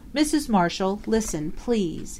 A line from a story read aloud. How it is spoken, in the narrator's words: he begged in a low voice